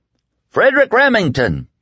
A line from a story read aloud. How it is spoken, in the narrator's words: he bellowed at the top of his lungs